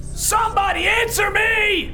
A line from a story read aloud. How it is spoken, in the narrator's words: I screamed, feeling a bit more panicked